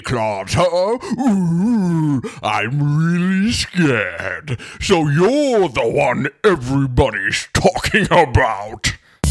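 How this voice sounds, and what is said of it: Loud villainous cartoon character voice. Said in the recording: “That's my Oogie Boogie ... That was a pretty good Oogie Boogie. Your mic was peaking the entire time you did that because it was so loud. ... That was a good impression,”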